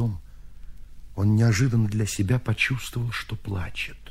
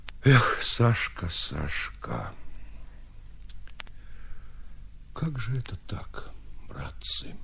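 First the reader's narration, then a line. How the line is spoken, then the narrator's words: Sad. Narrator (Russian): печально говоря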